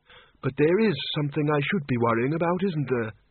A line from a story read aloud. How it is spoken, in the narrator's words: he said flatly